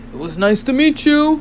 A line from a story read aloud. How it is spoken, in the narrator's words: Hapi cried, his voice turning murky and distant